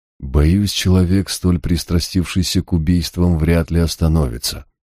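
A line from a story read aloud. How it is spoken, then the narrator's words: Even, level voice. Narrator (Russian): ровным голосом ответил я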